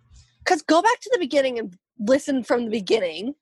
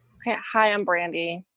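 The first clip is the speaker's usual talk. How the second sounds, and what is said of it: Entitled Karen-like voice. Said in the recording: “why do you sound like a Karen?”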